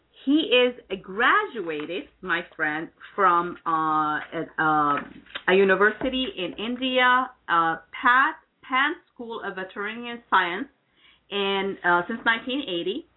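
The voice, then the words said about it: Speaks with a noticeable accent. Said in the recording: “my accent, I'm going to have a hard time pronouncing some of the veterinarian”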